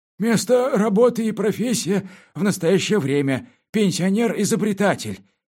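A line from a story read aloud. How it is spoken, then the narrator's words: Unsteady voice reading. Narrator (Russian): нетвердым голосом прочел комендант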